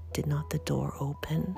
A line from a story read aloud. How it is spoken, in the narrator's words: whispered one of these fanciful persons